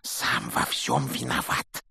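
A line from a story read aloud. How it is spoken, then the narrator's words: Heavy sigh. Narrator (Russian): тяжело вздохнул Рон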